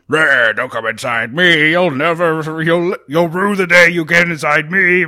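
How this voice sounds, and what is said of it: Silly growling character voice. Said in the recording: “I just want to give this house a silly voice”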